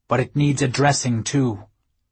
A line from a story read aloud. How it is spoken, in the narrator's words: Sven said firmly